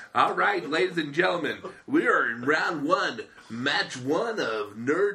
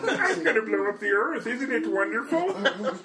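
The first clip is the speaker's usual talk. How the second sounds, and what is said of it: Imitates Marvin the Martian cartoon voice. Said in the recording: “Marvin the Martian ... who can do the voice?”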